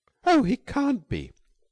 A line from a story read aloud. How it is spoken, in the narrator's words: cried Billy, revolted